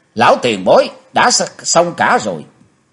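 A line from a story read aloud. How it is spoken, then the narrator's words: Loud shouting. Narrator (Vietnamese): Chí Tôn thét to lên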